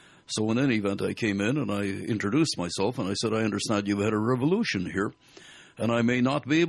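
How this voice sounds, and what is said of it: Usual voice. Nothing is said of it.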